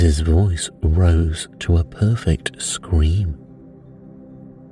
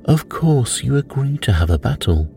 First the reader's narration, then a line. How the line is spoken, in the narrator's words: Tweedledum said in a calmer tone